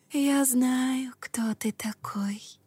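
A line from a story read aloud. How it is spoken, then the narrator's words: Female whisper. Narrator (Russian): прошептал женский голос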